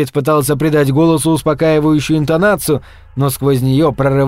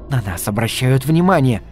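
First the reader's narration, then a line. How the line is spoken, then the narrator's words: Hissed while struggling. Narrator (Russian): прошипела Джилли, вырываясь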